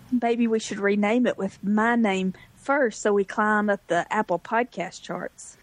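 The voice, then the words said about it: Southern American drawl. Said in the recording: “my southern drawl”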